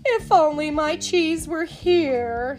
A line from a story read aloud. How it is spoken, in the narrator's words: said with a sigh